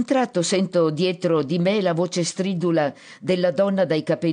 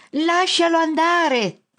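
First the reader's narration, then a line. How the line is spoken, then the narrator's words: Shout. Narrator (Italian): grida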